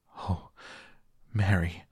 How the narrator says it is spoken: he cried out with a half sob

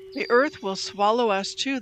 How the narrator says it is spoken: they cried

